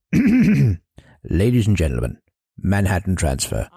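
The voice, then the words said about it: Ronnie Corbett impression. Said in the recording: “Let's do an impression of Ronnie Corbett.”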